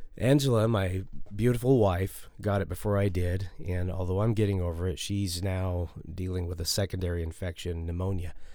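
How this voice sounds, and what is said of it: Hoarse, stuffy voice. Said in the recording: “If I'm sounding a little hoarse today or a little stuffy, it's because I'm just getting over the big C word, COVID.”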